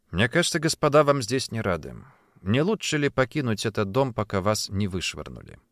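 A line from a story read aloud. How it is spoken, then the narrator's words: Soft, veiled threat. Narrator (Russian): мягко, но с явным намеком на угрозу произнес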